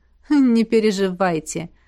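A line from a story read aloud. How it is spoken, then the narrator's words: Laughing, emperor. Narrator (Russian): рассмеялся император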